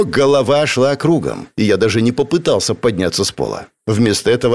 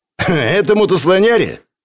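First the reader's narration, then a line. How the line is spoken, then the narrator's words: Snorting scoff. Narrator (Russian): хмыкнул автоматчик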